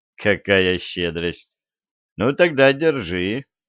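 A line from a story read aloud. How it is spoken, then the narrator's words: Young man's snort. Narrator (Russian): хмыкнул юноша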